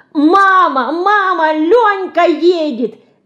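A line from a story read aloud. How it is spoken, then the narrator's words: Wildly joyful shouting. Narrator (Russian): кричала в буйной радости Динка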